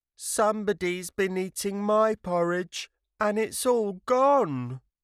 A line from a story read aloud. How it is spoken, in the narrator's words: Baby Bear cried out